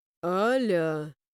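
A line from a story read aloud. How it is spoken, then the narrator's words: Drawn out, menacing warning. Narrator (Russian): предупреждающе грозно протянула Райлан Тимухин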